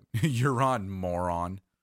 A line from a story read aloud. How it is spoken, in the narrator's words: Jerry chuckled and said